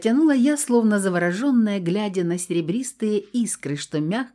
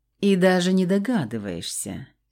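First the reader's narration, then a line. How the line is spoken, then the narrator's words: Purring. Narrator (Russian): мурлыкнул пернатый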